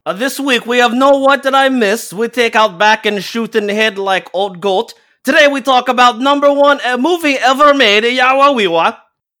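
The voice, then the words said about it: Borat accent impression. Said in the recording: “naturally gifted with the ability to pull off a Borat accent”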